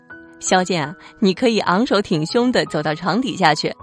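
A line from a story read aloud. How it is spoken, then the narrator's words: Joking. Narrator (Chinese): 张毅开玩笑说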